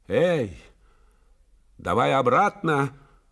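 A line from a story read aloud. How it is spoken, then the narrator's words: Shouting. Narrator (Russian): закричал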